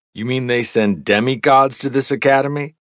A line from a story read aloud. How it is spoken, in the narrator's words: She chuckled